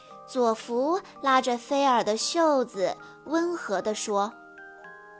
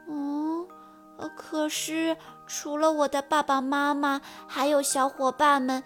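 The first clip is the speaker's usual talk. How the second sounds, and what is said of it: Quiet, sad voice. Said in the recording (Chinese): “难过了， 小声地说”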